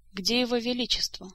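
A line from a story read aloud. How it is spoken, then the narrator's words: Calm question. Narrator (Russian): спокойно вопросил он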